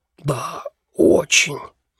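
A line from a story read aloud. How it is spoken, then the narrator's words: Polite hiss. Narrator (Russian): вежливо прошипел Пелхем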